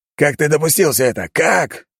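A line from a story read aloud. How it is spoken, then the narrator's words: Sharp cry. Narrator (Russian): вскрикнул он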